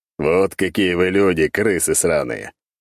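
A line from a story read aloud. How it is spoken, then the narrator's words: Scoffing. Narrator (Russian): Хмыкнув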